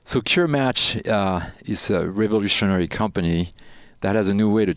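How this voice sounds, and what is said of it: French accent speaking English. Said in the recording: “you have a bit of an accent ... So you're French then? ... this little bit of a really delicious accent, because I love hearing French people speak English ... something of a Pepe Le Pew”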